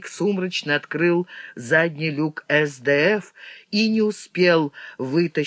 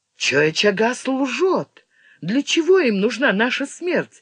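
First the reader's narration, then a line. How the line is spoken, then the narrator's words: Exclamation. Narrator (Russian): воскликнула Тивиса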